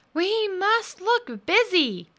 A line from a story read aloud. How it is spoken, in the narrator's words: Thomas said urgently